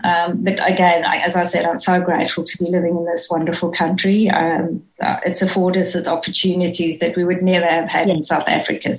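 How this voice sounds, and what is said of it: South African accent, not Australian-sounding. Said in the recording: “I know I don't sound Australian, but I am very Australian ... I love that accent. I love that accent.”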